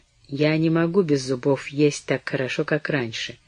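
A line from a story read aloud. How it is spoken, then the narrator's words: Disconsolate, listless mutter. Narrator (Russian): казалось, утратила всякий интерес к разговору, пробормотала безутешно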